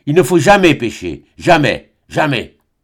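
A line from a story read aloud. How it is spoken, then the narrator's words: Firm voice. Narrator (French): Pâle encore, il dit d'une voix ferme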